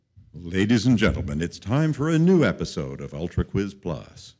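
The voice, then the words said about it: Smooth radio announcer voice. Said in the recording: “putting on my FM voice”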